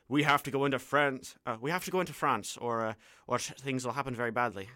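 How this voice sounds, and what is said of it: Put-on Irish accent, bombastic. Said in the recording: “an unfortunate Irish accent. Please don't judge me.”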